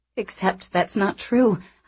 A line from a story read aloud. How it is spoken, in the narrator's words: I said miserably